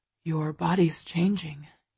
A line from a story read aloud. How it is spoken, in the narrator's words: he whispers